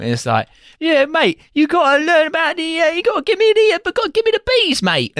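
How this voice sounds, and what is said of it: Exaggerated bad Cockney accent. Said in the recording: “cannot do a Cockney accent ... He sounds Dutch throughout this film ... It's full bore Dick Van Dyke shit.”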